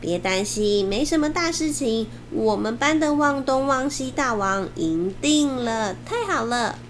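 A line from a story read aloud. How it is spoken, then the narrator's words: Cheerful grinning. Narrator (Chinese): 他笑嘻嘻回来说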